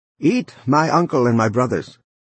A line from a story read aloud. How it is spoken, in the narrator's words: called loudly